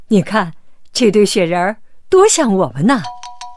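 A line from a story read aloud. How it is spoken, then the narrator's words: Laughing. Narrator (Chinese): 王子笑着说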